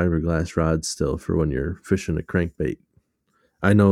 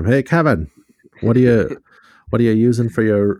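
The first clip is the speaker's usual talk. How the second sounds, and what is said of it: Old-timey radio announcer voice. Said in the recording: “your old-timey radio voice”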